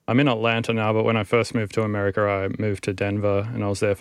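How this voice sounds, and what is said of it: Australian accent, slightly Americanized. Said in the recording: “I have an Australian accent ... it's gone slightly more towards an American accent”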